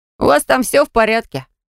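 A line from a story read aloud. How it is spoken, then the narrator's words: Snorted from behind door. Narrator (Russian): фыркнул за дверью рыжий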